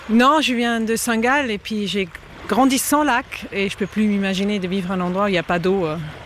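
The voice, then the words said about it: Slight foreign accent. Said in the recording (French): “j'entends un petit accent”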